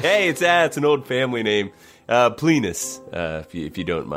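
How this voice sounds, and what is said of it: Character voice, inconsistent accent. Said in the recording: “a traveling dagger salesman with an inconsistent accent”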